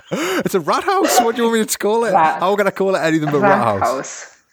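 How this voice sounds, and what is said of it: Noticeable foreign accent. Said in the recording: “your accent”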